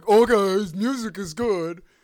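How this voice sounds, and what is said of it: Dumb-sounding muffled Canadian-ish voice. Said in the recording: “What voice am I doing? I got to find a new stupid voice. ... I actually really like that you don't go Southern. ... Instead, I have Canadian stuck under the water.”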